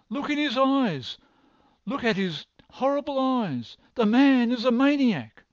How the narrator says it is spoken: she cried

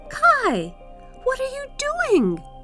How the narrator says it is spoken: cried the little girl

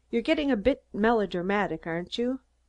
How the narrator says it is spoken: laughed easily and said

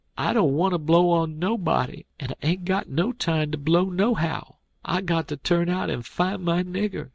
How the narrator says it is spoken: I went on a-whimperin' and says

